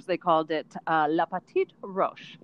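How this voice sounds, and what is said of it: Good put-on French accent. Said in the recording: “your accent was really good”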